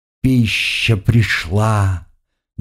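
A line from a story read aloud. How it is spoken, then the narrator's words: Contented purr. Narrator (Russian): довольно промурлыкала она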